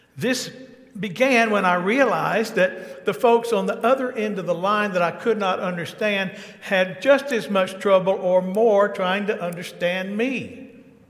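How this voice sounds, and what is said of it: Thick Southern US accent. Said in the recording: “I have a very thick southern accent. I live near Atlanta, Georgia, USA.”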